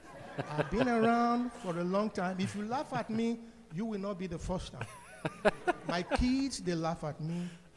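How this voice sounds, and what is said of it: Heavy African accent. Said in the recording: “this heavy African accent”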